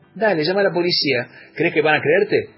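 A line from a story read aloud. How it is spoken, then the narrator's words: Mocking tone. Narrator (Spanish): dijo Raquel en tono burlón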